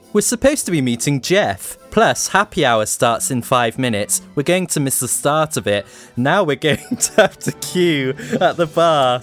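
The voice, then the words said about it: Camp, theatrical character voice. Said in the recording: “Sorry, I've gone camp.”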